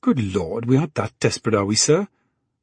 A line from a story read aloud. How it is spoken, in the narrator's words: Marie exclaimed